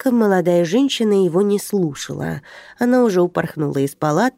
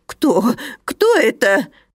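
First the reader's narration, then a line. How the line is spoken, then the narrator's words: Frightened wailing. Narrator (Russian): испуганно запричитал пациент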